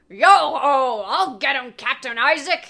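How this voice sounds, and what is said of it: Hearty pirate accent. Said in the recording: “in his best hearty pirate accent”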